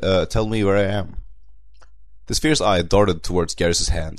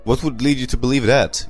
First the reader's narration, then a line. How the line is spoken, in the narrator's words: Garrus scoffed